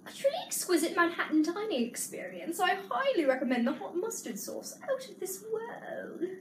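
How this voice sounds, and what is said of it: Put-on posh accent. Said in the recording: “I'll read it in a really posh accent.”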